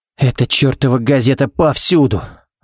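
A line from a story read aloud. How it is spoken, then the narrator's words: Sigh. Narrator (Russian): вздохнул Баллок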